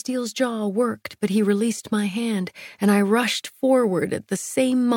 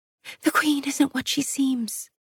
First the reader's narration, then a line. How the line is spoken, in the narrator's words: Tawny whispered in my ear as her fear coated the back of my throat